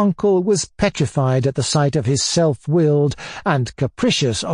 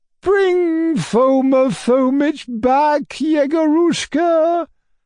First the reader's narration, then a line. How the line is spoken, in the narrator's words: the old lady went on wailing